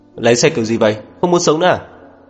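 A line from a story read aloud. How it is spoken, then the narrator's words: Angry cursing. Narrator (Vietnamese): Tài xế tức giận chửi mắng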